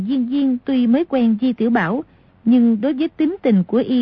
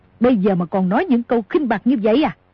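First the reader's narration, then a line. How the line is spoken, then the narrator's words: Angry shout. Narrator (Vietnamese): Cửu Nạn tức giận quát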